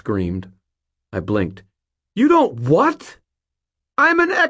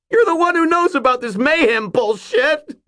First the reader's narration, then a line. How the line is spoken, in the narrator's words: Mort shrieked